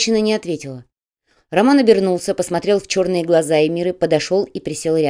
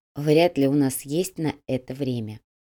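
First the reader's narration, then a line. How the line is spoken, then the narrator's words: Soft. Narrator (Russian): мягко произнесла Го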